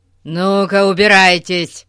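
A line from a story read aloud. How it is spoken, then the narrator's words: Booming voice. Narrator (Russian): прогремел мистер Таппинг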